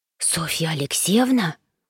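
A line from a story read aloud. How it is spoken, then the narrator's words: Boy's surprised whisper. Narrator (Russian): удивленно прошептал парнишка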